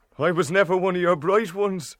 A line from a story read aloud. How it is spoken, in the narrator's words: he added with a half laugh